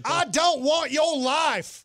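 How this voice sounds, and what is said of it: Put-on Texas accent. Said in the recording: “Can you do it in a Texas accent?”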